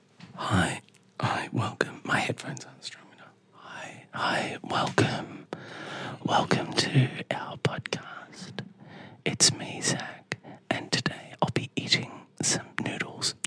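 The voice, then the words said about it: Soft whispery ASMR voice. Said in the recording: “Could we do the next one in ASMR voice? ... Do the introduction in ASMR.”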